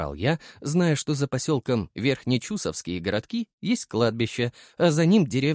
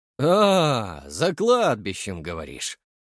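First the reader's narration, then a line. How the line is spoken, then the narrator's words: Relaxed drawl. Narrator (Russian): расслабленно протянул здоровяк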